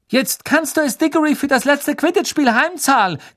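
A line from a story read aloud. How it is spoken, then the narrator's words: Shrieked. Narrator (German): kreischte Katie Bell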